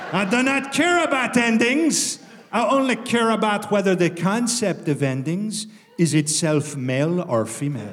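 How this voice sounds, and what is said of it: Silly, deliberately sloppy put-on accent. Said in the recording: “this stupid fucking voice ... I haven't bothered to get the accent right ... Eddie Izzard ... these jokes about the French language”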